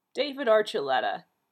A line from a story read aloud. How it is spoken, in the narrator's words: Cook said sternly